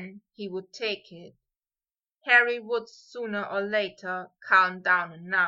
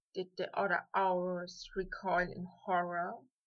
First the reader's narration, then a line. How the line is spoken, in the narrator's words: Draco whispered at last